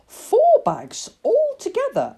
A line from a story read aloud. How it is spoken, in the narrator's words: exclaimed the man